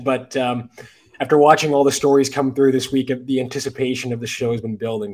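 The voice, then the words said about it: Voice affected by sickness. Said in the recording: “I'm just getting over a bit of a sickness, so I hope my voice isn't too bad.”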